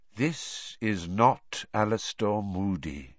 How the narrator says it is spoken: said Dumbledore quietly

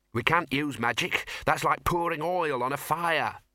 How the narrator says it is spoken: snapped the Dean

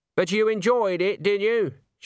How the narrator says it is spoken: She called out

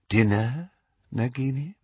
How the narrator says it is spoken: said Voldemort softly

